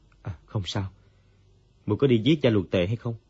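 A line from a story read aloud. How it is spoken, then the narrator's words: Sighing, as if waking. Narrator (Vietnamese): Dương Quá như tỉnh mộng, thở dài nói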